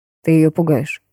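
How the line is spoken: Cold. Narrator (Russian): холодно произнес Хосе

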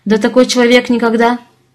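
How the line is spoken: Scoffing, then faltering. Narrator (Russian): Хмыкнул Ляк и запнулся

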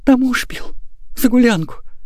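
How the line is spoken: Barely audible. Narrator (Russian): едва слышно выговорила Прасковья

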